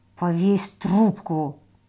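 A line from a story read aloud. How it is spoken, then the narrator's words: Hiss. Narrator (Russian): прошипел Гриша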